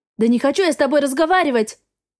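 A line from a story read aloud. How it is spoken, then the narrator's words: Barking, snapping. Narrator (Russian): Рявкнула я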